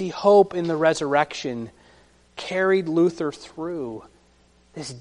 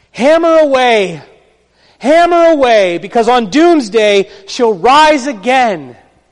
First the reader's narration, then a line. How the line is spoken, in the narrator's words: Luther screamed out